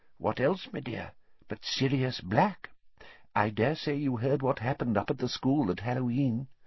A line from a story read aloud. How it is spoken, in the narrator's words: he said, in a quiet voice